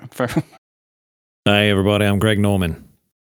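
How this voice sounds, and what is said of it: Put-on Australian accent. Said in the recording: “can you do an Australian accent? ... That's pretty good. ... It's pretty good, man. Excellent.”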